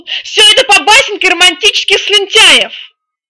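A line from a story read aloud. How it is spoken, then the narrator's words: Old phoenix yelling. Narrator (Russian): заорал старый феникс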